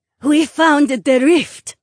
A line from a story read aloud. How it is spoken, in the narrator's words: Aaliyah gasped